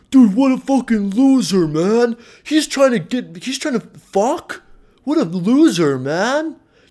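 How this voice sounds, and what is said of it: Bad impression of typical guys. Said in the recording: “I don't know if you guys really sound like that. That was kind of a bad impression.”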